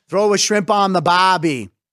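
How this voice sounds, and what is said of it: Poor Australian accent, sounds Cajun. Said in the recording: “Australian ... I can't shake the New Orleans ... Yeah, that sucked”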